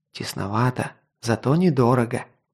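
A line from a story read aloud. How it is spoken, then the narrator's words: Whisper. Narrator (Russian): прошептал возница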